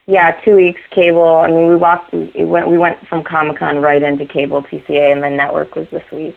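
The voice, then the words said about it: Strained, fading voice. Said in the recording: “you can tell I'm kind of losing my voice.”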